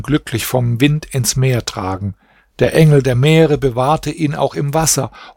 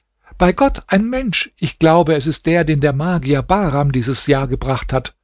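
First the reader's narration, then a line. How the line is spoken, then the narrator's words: Joyful shout. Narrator (German): schrie sie freudig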